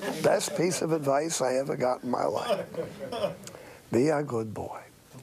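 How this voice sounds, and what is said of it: Usual voice. Nothing is said of it.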